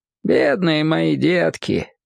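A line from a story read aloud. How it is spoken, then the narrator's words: Tender. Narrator (Russian): ласково говорил Харша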